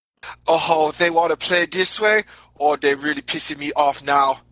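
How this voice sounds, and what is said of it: Thickening put-on character accent. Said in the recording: “the accent starts getting a lot thicker”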